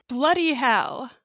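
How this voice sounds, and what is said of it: Put-on British accent. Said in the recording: “That was my be. British accent, by the way. ... it says in British accent.”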